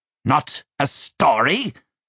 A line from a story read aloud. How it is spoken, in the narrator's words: Morghenis roared